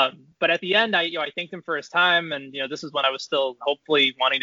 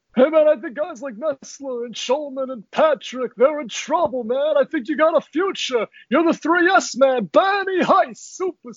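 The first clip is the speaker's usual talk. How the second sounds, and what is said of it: Dick Vitale impression. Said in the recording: “my Dick Vitale impression”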